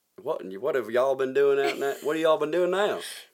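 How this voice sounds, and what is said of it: Put-on Southern US accent. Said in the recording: “you should be doing a down south accent.”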